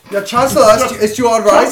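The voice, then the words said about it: Poor put-on German accent. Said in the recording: “Not a very good German accent there, but it'll get better.”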